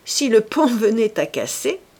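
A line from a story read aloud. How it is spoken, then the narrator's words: Sneering laugh. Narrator (French): dit en ricanant Gilles Quint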